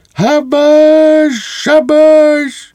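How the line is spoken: Shrieking. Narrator (Ukrainian): кадет Біглер та ще й верещить

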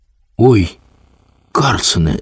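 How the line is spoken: Frightened child's shout. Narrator (Ukrainian): злякано гукнув малий

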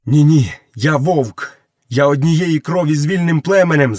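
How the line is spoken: Shouted. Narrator (Ukrainian): закричав Мауглі

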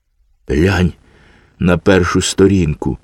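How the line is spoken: Sad child. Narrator (Ukrainian): сумно сказав малий

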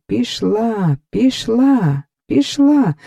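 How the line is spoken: Joyful group shouting. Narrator (Ukrainian): загукали всі радісно

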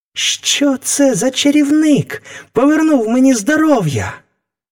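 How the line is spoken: Boy exclaiming. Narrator (Ukrainian): вигукнув хлопець

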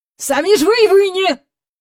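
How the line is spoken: Angry. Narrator (Ukrainian): сердито сказав містер Бенкс

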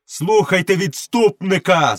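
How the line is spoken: Laughing shout. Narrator (Ukrainian): закричав Мауглі, сміючись

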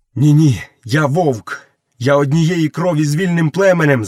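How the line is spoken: Shouting. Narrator (Ukrainian): закричав Мауглі

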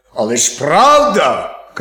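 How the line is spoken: Shouting wolf. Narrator (Ukrainian): крикнув вовк

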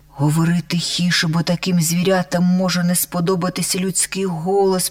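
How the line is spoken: Whispered. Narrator (Ukrainian): прошепотів Бись

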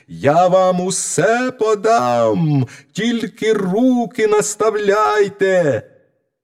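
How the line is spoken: Shouting at full voice. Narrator (Ukrainian): знову закричав, скільки було голосу

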